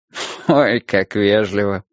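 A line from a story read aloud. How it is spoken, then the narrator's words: Friendly laughing. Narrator (Russian): рассмеялся он, но не злобно, а так, чтобы было понятно, он по-дружески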